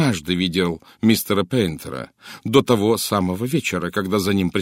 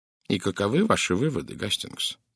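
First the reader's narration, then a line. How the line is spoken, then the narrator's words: Quiet question. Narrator (Russian): негромко спросил Пуаро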